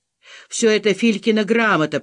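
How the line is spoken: Hoarse wheeze. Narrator (Russian): просипел он

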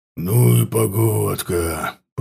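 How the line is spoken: Growling creature. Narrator (Russian): прорычал ворк

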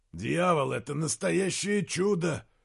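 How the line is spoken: Hoarse. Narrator (Russian): Хрипло сказал Изгримнур

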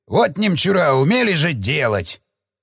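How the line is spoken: Snorting grunt. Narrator (Russian): хмыкнул Эдик

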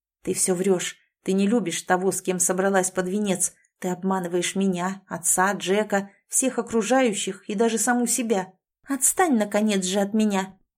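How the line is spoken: Angry girl's hiss. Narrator (Russian): злобно зашипела девушка

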